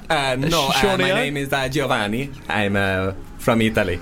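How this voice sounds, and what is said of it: Weird put-on Italian accent. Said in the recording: “This is a weird Italian accent.”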